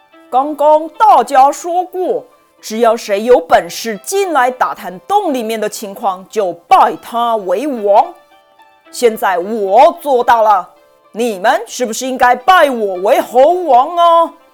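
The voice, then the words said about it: Loud, resonant, booming voice. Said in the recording (Chinese): “用洪亮的声音说”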